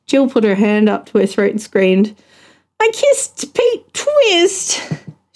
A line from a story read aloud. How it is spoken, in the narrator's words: she groaned